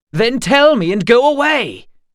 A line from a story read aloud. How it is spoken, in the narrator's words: Gar shouted